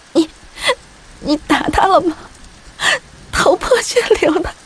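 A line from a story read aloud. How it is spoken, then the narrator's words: Badly trembling voice. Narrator (Chinese): 我声音颤抖的厉害，问木西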